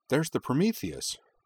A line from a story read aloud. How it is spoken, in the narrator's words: Kaname cried